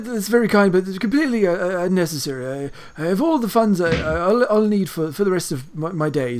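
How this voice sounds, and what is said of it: Posh, wealthy-sounding character accent. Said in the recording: “He's clearly rich. Can't you tell from his accent?”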